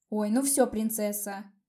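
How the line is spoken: Sarcastic snort. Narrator (Russian): саркастически хмыкнула я

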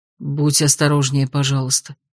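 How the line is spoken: Quiet request. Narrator (Russian): тихо попросил

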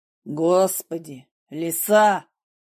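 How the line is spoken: Barked. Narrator (Russian): как рявкнет на меня Игнат

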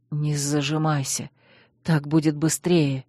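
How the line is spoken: Barely breathed out. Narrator (Russian): еле выдохнул

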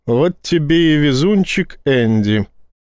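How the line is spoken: Drawled. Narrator (Russian): протянул Файн

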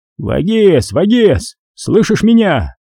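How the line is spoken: Muffled yelling into snow. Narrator (Russian): орал, уткнувшись в снег, Гриша

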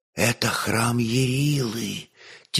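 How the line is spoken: Maiden's soft whisper. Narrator (Russian): тихо прошептала дева

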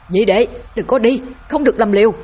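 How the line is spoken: Yelling while fighting. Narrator (Vietnamese): Vĩnh Quyền trưởng môn vừa đánh vừa gào lên ngăn cản

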